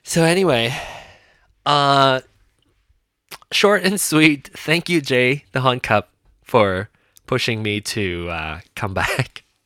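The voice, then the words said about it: Slightly congested, sniffly voice from cold. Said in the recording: “I got a cold two weeks ago... a little bit of uh, residual... A little residual sniffly... you can probably hear from my voice or my my sniffling”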